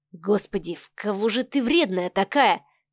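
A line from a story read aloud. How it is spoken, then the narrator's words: Muttered. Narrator (Russian): пробормотал Савва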